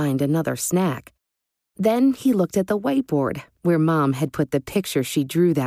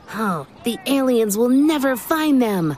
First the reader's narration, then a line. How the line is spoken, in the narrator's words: shouted Gabe with a giggle